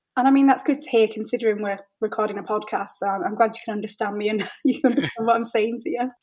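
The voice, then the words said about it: Hull English accent. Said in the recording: “it's just a different twang, but it's very comprehensible ... I think the Hull accent”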